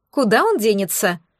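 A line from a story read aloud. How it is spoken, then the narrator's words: Dismissive snort. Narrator (Russian): фыркнула Маргоша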